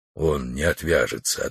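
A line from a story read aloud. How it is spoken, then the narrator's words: Quiet. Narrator (Russian): ответил Алмаз тихо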